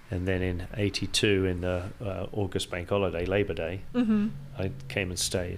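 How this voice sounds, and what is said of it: Mid-Atlantic English accent. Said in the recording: “your accent's still here... a mid-Atlantic accent”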